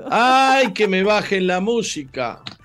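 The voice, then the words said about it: Shouting. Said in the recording (Spanish): “Está gritando ... Estás gritando.”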